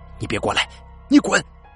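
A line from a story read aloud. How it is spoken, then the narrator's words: Terrified repeated shouting. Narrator (Chinese): 他十分惊恐的，不断的喊着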